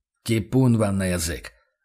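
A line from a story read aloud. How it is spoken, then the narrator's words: Angry retort. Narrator (Russian): зло бросил фон Рейдер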